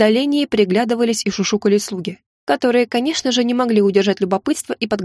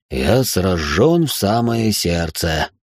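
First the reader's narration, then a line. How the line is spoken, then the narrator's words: Hoarse reply. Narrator (Russian): хрипло отозвался он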